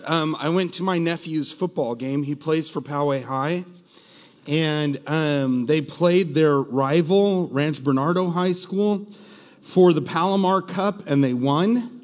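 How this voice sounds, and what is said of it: Strained voice. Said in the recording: “My voice is really strained. It's not strained for a good reason”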